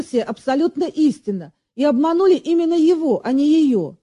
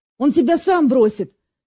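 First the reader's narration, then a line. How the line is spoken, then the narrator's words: Angry, offended father. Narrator (Russian): сердито вставил обиженный отец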